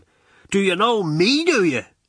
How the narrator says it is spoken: shouts back at him

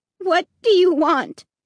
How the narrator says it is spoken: repeated in a trembling voice

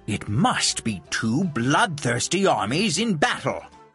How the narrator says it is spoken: exclaimed Don Quixote

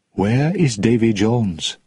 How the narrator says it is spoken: she asked softly

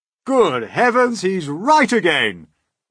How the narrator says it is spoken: cried the old green grasshopper

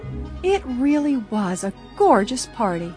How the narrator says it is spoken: Bess sighed blissfully

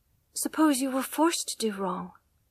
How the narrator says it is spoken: she whispered, trembling

